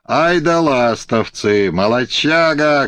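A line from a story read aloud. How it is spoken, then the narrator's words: Cheerful shouting crowd. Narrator (Russian): кричали ему со всех сторон веселые голоса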